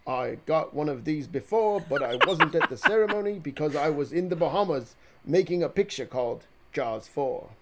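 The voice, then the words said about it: Imitates another person's voice. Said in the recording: “your best Michael Caine impression ... It's pretty good ... No, that was decent”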